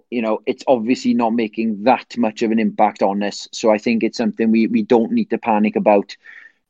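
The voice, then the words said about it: Welsh accent. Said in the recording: “my accent ... some sort of Welsh accent”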